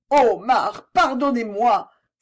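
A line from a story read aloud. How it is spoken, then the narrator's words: Pleading cry. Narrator (French): s'écria Suzanne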